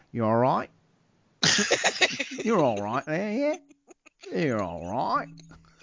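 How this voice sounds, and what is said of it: Put-on Australian accent. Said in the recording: “my wife hates when I do the Australian accent.”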